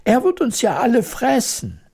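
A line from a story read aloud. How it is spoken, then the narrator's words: Horrified scream. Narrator (German): schrie die Königin entsetzt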